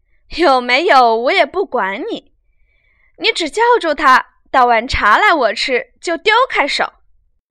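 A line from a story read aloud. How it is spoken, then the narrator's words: Laughing. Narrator (Chinese): 宝玉笑道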